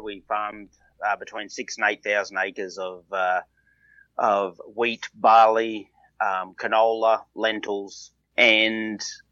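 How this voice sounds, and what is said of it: Australian accent. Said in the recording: “an Australian-born entrepreneur ... listen to that accent”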